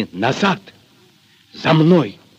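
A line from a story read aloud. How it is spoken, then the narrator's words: Quick whisper. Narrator (Russian): успел шепнуть Аксинье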